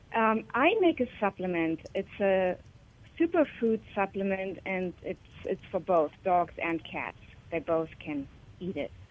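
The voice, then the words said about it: German accent. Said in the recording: “It sounds like you're from Germany.”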